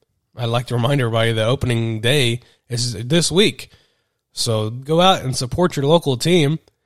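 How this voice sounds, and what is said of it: Congested head-cold voice. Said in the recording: “apologize for my voice. I have a head cold ... trying to do a podcast here with a head cold, and it's kind of difficult not trying to sound like I've got one”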